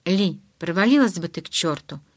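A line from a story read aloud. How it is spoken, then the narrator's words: Even voice. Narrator (Russian): Ровным голосом ответил я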